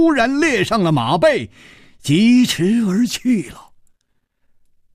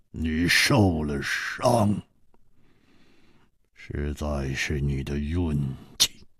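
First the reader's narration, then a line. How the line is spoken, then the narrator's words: Cold. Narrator (Chinese): 薛衣人冷冷地说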